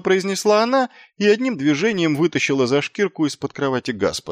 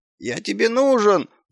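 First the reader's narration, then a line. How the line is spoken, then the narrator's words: Whining dog. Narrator (Russian): заскулил пес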